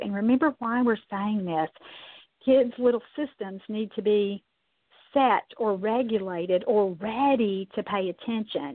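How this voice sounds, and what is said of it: Strained, struggling hoarse voice. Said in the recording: “my voice is really struggling ... It's allergy season in Kentucky, so you can certainly hear that in my voice today.”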